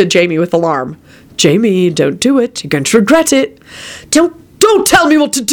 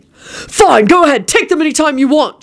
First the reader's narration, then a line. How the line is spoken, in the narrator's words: shouted Jamie